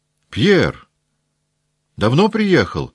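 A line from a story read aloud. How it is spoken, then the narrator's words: Shouted, familiar voice. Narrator (Russian): прокричал ему знакомый голос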